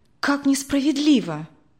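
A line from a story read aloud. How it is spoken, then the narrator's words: Exclaimed. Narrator (Russian): воскликнула Мария Владимировна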